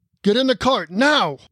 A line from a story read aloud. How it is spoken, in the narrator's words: the dwarf bellowed